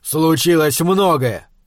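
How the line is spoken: Barked. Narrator (Russian): рявкнул Фишер

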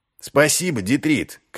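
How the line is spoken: Calling out after. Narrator (Russian): крикнул вслед Ваймс

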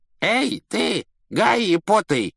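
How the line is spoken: Creaky voice. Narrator (Russian): проскрипел он

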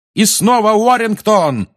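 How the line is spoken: Yelling. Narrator (Russian): орал Ли

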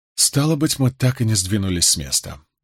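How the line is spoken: Sighing. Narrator (Russian): вздохнула Эгвейн

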